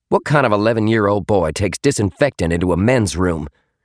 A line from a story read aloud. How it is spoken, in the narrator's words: Cheyenne snapped